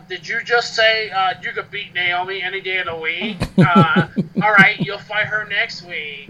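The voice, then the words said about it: Spot-on Daniel Bryan impression. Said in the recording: “That was a really good impression of Daniel Bryan. ... Spot on.”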